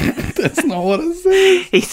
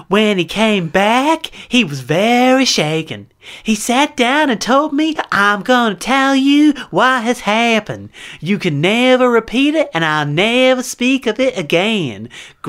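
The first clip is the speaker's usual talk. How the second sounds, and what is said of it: Reading in a put-on accent. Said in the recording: “I know you'll drop that accent.”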